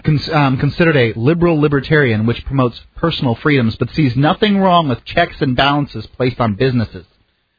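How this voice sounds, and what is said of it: Put-on accent. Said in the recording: “Why are you adding that accent?”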